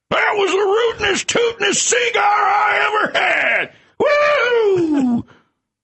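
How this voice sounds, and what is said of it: Yosemite Sam impression. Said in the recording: “Can you give us one more impersonation of Yosemite Sam”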